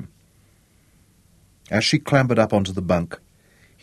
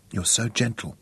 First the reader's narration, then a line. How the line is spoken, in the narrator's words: she whispered